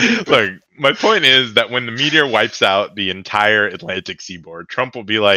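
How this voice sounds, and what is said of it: Usual voice. Nothing is said of it.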